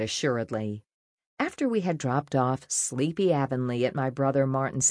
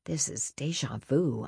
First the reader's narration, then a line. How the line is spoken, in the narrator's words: I muttered after a sharp pain reminded me how awful my contractions had been during my first labor with Avonlea